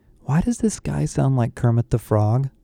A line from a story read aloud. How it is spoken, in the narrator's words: Becky whispered in my ear